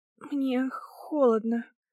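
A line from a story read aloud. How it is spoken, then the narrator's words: Weak wheeze. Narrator (Russian): смогла просипеть я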